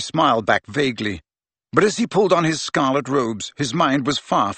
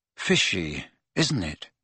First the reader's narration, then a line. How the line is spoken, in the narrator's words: he said in an undertone to Ron